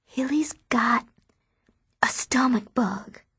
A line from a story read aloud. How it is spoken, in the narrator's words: I whisper